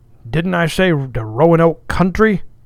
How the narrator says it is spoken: cried sharply

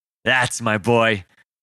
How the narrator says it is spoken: Parker responded with a laugh

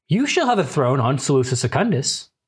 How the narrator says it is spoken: Paul responds calmly

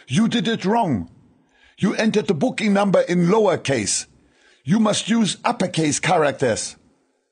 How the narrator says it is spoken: shouted

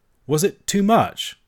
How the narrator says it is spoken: I asked, a little faltering

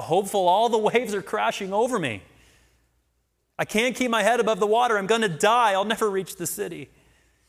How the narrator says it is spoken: as Christian entered the water, he began to sink and cried out

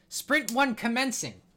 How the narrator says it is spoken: he yells to you

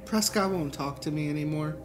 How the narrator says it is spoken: she said, more calmly this time as she tried to compose herself

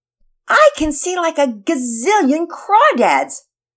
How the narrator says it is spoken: Todd yelled excitedly, as he exaggerated once again

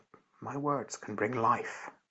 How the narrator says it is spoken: And this young lady said very quietly

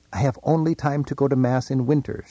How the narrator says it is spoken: she says

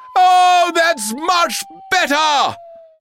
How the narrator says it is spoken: he fell for long enough to shout

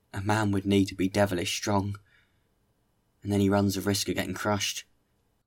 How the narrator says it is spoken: One of them muttered

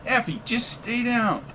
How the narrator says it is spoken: yelled McGee

